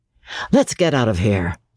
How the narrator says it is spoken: Gay had said

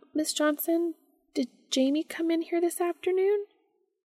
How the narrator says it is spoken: Sophie said nervously

